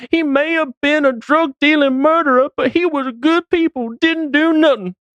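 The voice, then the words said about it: Mix of accents. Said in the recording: “That was a mix of accents.”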